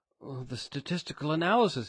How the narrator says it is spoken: exclaimed

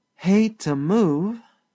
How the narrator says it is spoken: sighed Sally Carrol lazily

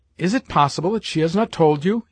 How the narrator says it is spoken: he exclaimed

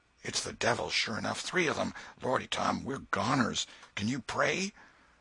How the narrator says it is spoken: Presently Huckleberry whispered with a shudder

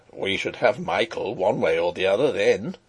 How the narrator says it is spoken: he chuckled

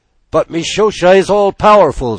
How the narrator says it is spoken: screamed the gulls

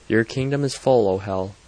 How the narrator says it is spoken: said

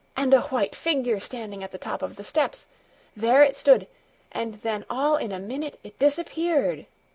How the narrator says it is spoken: gasped John

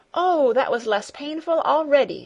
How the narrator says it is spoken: exclaimed joyfully

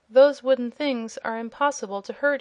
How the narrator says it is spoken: he said

